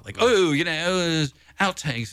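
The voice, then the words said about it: Bad put-on British accent. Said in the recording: “I don't know why I keep going to the British accent. It's so horrible. I apologize to anybody British out there listening.”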